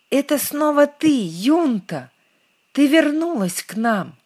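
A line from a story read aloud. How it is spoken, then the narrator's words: Excited exclamation. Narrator (Russian): кинулись к нему, воскликнув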